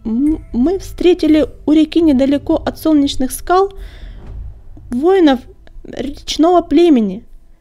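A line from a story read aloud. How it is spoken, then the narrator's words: Halting, stammering. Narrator (Russian): продолжал он, запинаясь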